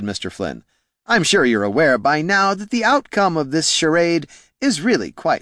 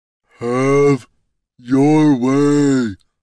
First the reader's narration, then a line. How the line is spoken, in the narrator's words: rumbled Brunt